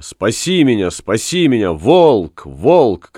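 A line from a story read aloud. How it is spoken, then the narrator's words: Screaming for help. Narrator (Russian): кричала она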